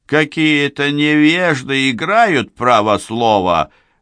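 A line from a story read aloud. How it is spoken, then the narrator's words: Loud complaining. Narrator (Russian): громко жаловался пузатый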